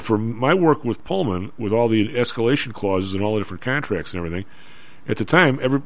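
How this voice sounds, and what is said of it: Strong Chicago Southside accent. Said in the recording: “Your Southside accent's really fired up... My Southside accent is fired up”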